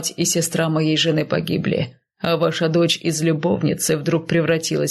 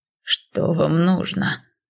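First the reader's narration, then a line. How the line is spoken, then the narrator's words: Hoarse wheeze. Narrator (Russian): прохрипел Иемуско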